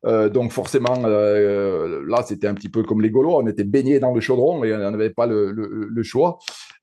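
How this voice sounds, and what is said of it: Saint-Étienne French regional accent. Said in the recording (French): “par mon accent, on, voit que je suis un pur Stéphanois”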